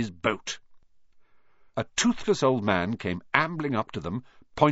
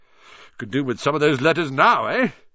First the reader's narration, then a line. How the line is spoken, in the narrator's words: he said cheerfully